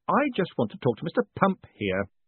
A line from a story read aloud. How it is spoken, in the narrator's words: added sharply